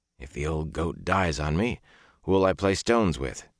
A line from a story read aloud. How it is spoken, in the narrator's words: he told himself roughly